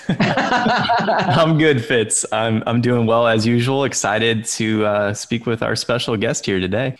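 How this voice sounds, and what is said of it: Smooth radio DJ-style voice. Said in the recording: “the DJ voice ... DJ voice.”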